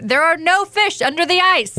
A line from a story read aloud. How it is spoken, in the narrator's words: the voice booms again